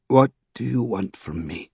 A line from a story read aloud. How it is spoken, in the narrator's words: He asked in a low voice